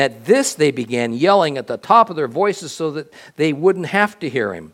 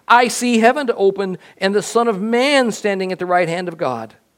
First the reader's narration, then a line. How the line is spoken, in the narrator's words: exclaimed